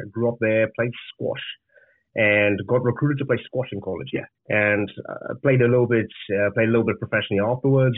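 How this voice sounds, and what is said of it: Zimbabwean English accent. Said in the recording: “as you can hear from the accent, it's not from here. I'm from Zimbabwe originally.”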